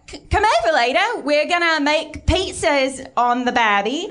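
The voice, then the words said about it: Attempted Australian accent sounding English. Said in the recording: “Was that a passable accent? ... It was English. ... Not bad.”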